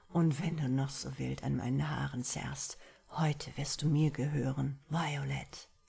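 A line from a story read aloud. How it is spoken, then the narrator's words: Muffled murmur. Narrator (German): murmelte er in ihrem Schoß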